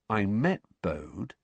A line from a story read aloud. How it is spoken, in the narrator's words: he said slowly